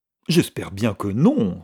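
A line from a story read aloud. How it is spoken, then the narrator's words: Exclaimed. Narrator (French): s'exclama Mrs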